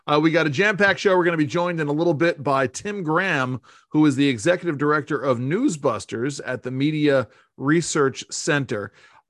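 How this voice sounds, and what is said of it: Radio announcer voice. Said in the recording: “I'm using my radio voice here, that once again, as I always do”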